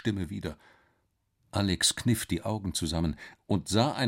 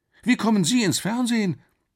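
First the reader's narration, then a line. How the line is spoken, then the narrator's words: Called out. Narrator (German): rief Alex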